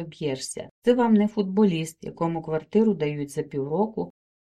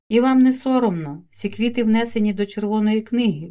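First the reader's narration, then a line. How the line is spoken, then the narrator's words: Writer exclaiming. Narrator (Ukrainian): вигукнув письменник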